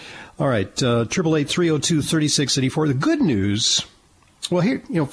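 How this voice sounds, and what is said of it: Usual voice. Nothing is said of it.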